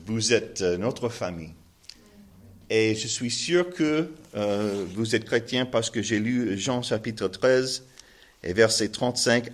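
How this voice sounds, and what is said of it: Strong American accent in French. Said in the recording (French): “mon accent terrible en français, malgré le fait que je suis un Américain”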